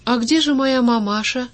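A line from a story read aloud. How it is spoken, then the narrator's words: Timid question. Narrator (Russian): робко спросил первый блин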